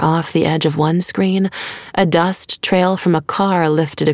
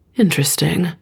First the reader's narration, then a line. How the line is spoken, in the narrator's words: murmured